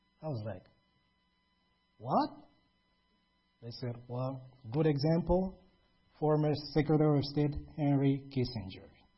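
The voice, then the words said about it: Foreign accent. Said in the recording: “your accent, your foreign accent”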